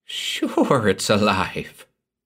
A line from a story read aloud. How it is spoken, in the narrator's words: chuckled Gurse